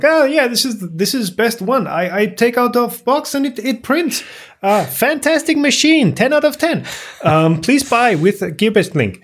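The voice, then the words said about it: Salesman shill voice. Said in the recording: “I wasn't doing any specific accent there. This was just random shill voice.”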